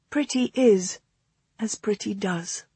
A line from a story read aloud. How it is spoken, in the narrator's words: she said quietly